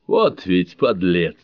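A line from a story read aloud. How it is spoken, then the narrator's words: Hoarse wheeze. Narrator (Russian): захрипел Рога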